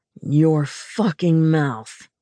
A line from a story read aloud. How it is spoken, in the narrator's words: he growled